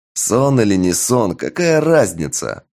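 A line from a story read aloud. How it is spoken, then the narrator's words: Mocking imitation, laughing. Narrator (Russian): передразнил я магистра, смеясь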